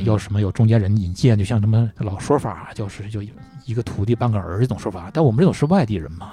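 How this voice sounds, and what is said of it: Northeastern Chinese accent. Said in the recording (Chinese): “你这东北口音”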